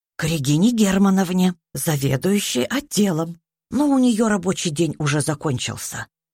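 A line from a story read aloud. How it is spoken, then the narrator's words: Librarian whispering. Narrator (Russian): прошептала библиотекарша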